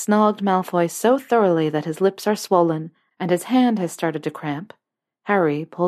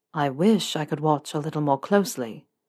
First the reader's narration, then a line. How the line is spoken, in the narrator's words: Malfoy murmurs